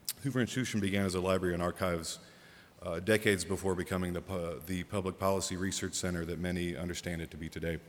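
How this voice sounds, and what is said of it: Congested, deep radio-like voice. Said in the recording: “I'm getting over a cold or allergies or something, so you get my radio voice”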